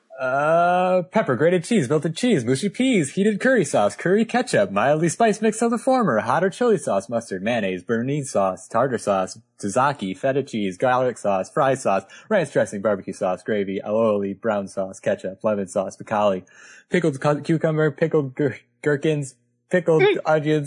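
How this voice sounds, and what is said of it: Reading a list very fast. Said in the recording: “Do you want me to read it as quickly as I possibly can? ... Do the Hot Wheels voice. ... go quickly.”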